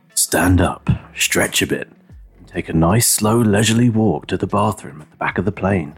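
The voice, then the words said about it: Radio announcer voice. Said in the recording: “going to put on my radio voice”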